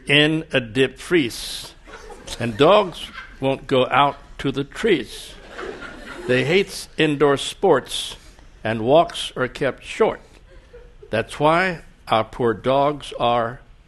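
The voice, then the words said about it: Thick Chicago accent. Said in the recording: “it's a thick Chicago accent. It's a little difficult.”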